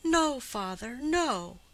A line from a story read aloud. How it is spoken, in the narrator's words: She was not tearful and grieving, but frightened and awestruck, as she cried out